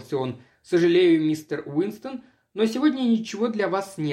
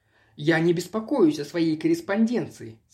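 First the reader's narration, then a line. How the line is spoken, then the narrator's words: Plain. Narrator (Russian): сказал я ему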